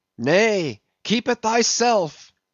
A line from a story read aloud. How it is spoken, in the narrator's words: cried Gabriel